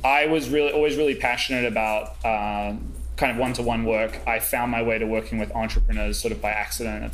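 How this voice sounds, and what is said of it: Slight New Zealand accent. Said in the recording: “psychotherapy practice in New Zealand. I still have a bit of an accent.”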